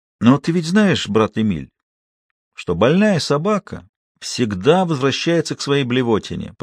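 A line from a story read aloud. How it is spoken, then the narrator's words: Cooing. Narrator (Russian): продолжал ворковать Гринер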